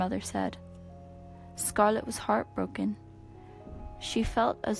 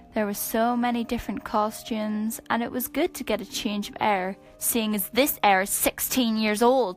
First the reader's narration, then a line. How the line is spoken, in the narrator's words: she yelled